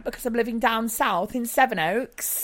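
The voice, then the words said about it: Put-on posh English accent. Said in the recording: “Do you like my new posh accent?”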